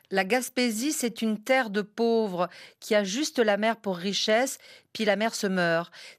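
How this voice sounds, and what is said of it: French accent. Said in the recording (French): “Vous avez un accent extraordinaire quand vous lisez mon livre ... un accent français”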